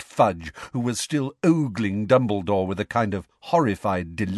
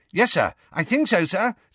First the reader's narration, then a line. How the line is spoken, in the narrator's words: said Percy eagerly